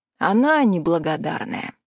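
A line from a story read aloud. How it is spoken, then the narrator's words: Sighing. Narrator (Russian): вздохнул Миронов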